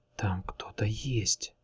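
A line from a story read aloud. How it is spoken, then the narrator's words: Whispered. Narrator (Russian): прошептал он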